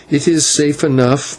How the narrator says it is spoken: Maya answered with a bitter laugh

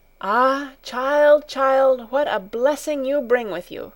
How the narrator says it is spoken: the old woman exclaimed

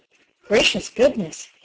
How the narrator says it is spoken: he muttered

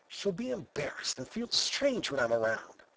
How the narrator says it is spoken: he whispered to himself

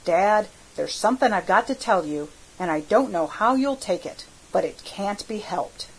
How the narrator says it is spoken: I says

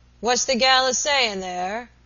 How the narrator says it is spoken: asked the invalid in a subdued roar, which died away hoarsely on his lips

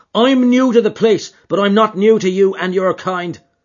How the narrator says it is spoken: cried McMurdo in a cold fury

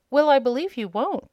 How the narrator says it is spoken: exclaimed Dorothy

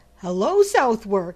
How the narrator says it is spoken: he cried

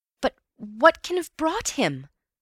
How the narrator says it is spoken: I cried miserably

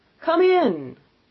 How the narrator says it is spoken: exclaimed the ghost

